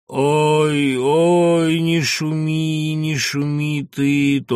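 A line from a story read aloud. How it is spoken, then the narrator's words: Thin wailing drawl, old woman. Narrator (Russian): тонко с подвыванием протянула старуха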